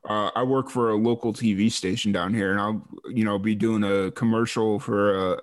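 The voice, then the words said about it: Thick Midwestern accent. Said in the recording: “my big Midwestern accent coming through a little thick”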